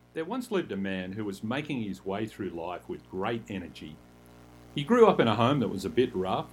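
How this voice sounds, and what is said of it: Australian accent. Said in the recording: “He's got a cool Australian accent”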